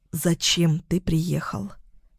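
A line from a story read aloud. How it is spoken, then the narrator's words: Whisper. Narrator (Russian): прошептала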